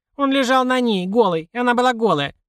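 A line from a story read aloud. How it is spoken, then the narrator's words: Indignant snort. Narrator (Russian): Марго возмущенно фыркнула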